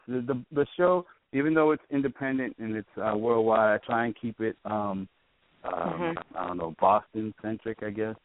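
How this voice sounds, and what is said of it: Boston accent. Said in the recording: “you can hear my horrible accent ... your accent is addictive”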